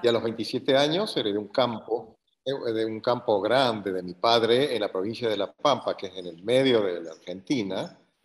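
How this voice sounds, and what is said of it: Argentine Spanish accent. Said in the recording (Spanish): “por tu acento mucha gente ya lo va a adivinar ... Soy argentino, nacido en la ciudad de Córdoba.”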